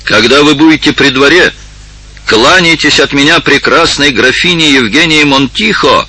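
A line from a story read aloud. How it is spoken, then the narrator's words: Shouting after someone. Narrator (Russian): закричал он вслед аббату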